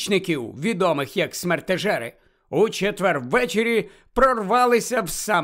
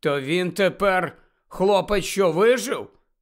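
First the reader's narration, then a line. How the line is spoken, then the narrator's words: Gloomy mutter. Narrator (Ukrainian): похмуро буркнув Рон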